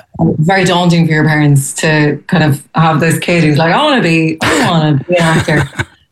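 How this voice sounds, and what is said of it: Irish accent. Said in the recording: “He wanted my accent for that. He wanted, you know, her to be Irish ... you get to be in your own accent”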